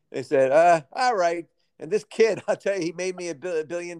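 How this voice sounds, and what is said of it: Put-on New York accent. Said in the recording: “I'm giving him a New York accent”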